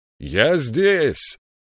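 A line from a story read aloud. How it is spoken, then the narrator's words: Shouted reply. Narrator (Russian): крикнул он в ответ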